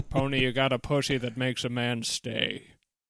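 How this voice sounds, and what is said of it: Pierce Brosnan impression. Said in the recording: “your impression of Pierce Brosnan saying pony”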